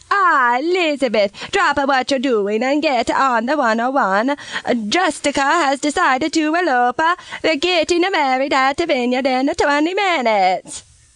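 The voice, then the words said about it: Bad put-on Italian accent. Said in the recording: “doing a bad impression of an Italian accent”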